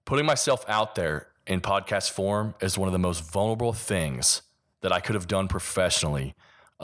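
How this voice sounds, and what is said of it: Kentucky accent. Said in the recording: “my Kentucky accent”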